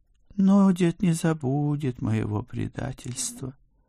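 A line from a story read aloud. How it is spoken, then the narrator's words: Sighing, cat. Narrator (Russian): вздохнул кот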